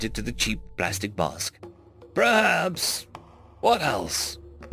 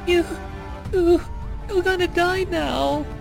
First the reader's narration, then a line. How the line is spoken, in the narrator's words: squeaked Ola, wonderment still in his voice